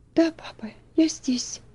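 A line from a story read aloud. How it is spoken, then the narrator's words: Trembling voice. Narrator (Russian): ответила Элси дрожащим голосом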